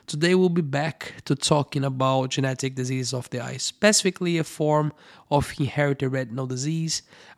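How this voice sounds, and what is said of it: Low voice, still recovering. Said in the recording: “my voice was terrible for quite some time. Well, I hope it's better now. I do have a low voice”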